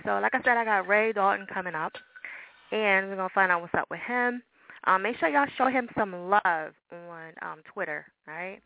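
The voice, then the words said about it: New Jersey accent. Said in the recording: “I know I got the Jersey accent going on”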